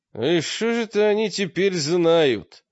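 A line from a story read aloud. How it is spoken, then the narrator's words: Unhappy voice. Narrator (Russian): ответил Олег несчастным голосом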